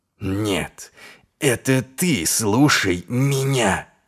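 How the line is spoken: Hissed. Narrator (Russian): прошипел он

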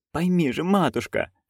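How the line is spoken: Pleading. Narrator (Russian): взмолилась Маград

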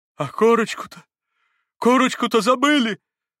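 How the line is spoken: Sudden terrified exclamation. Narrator (Russian): Вдруг воскликнул он в страшном испуге

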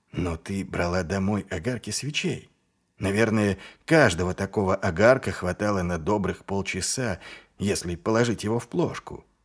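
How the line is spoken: Soft inquiry. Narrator (Russian): мягко поинтересовался Ваймс

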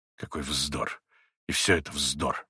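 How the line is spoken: Mutter. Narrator (Russian): бормотал он

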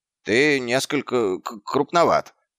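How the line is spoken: Stammering. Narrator (Russian): запинаясь, произнес он

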